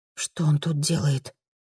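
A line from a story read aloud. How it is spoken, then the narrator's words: Surprised whisper. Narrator (Russian): От неожиданности перешла на шепот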